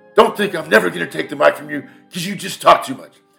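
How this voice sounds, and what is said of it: Imitates another person's voice. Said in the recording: “my Marlon Brando impersonation”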